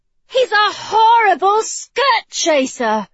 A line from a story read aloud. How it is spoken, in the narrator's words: she exclaimed